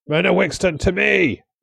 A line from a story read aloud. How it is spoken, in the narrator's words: Wallace shouted